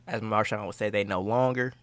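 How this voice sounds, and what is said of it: Put-on Bay Area accent. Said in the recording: “That was a good Bay accent there for a second.”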